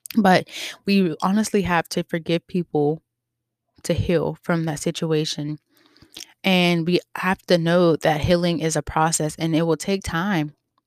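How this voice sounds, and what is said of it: Hoarse voice. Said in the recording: “My voice is so hoarse.”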